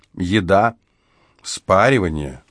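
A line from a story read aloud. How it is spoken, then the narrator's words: Contented sigh. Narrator (Russian): с довольным видом вздохнула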